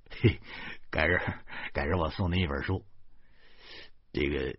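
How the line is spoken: Awkward forced laugh. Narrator (Chinese): 我干笑着说

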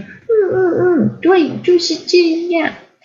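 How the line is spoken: Cheerful laughing. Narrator (Chinese): 波妞便笑呵呵的点头说

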